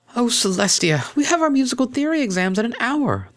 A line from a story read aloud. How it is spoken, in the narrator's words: the cellist exclaimed